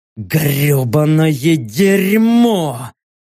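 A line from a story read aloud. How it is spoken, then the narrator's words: Angry frustrated hiss. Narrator (Russian): прошипел я, злясь, что мы не добыли ни одного трупа здешних обитателей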